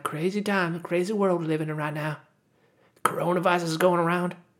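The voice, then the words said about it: Nasal Californian American accent. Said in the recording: “I still kind of have like an American accent ... I kind of have this California accent. It's nasally California accent”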